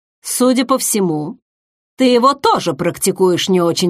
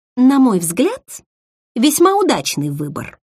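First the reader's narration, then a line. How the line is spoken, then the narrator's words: Polished, genteel tone. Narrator (Russian): самым светским тоном высказалась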